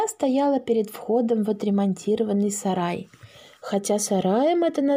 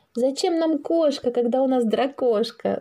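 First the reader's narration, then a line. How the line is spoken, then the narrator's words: Shouted. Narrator (Russian): закричала Маша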